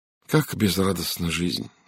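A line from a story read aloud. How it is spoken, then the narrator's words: Sigh. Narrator (Russian): вздохнула Сара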